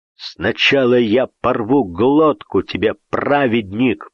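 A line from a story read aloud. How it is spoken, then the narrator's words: Growl behind a door. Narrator (Russian): прорычал из-за двери Игнатьев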